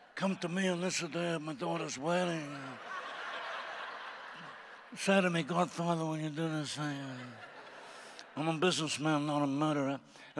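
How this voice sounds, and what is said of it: Gangster movie character impression. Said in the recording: “We had an accent off last night ... We're doing accents ... We were doing gangsters and everything”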